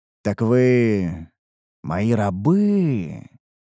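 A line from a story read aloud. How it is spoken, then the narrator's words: Drawn-out, confirming not asking. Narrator (Russian): протянул я, скорее подтверждая свои догадки, а не вопрошая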